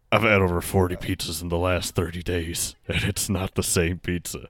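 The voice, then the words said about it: Impression of John Schnatter. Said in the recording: “I'm going to do the voice. ... John Schnatter said”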